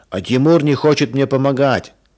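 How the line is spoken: Shout. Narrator (Russian): закричал Женя

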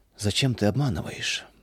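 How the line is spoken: Sad, father. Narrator (Russian): печально спросил отец

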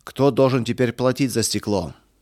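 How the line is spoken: Shouting. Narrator (Russian): кричал Эрих

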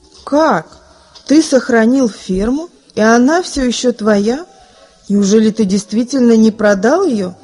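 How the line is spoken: Plain. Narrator (Russian): спросил другой гость

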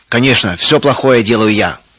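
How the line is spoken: Angry repetition. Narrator (Russian): Сердито повторил Густав

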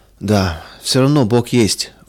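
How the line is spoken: Sighing. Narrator (Russian): вздохнул он

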